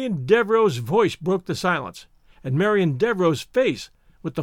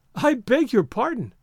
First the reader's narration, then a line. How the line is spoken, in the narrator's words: she said, and laughed